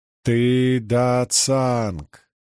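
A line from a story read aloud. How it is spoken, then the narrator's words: Chanting. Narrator (Russian): нараспев произнесла круглолицая хранительница мудрости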